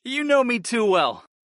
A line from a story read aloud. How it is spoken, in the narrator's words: I managed to laugh